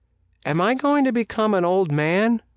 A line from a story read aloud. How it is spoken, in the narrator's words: he blurted out